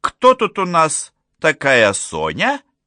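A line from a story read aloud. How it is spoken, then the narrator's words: Cheerful singsong. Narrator (Russian): весело пропела Глинда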